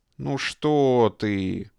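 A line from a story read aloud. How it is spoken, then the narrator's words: Disdainful drawl. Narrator (Russian): брезгливо протянул генерал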